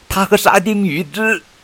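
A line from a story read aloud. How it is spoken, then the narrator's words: Loud addition. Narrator (Chinese): 保罗大声补充道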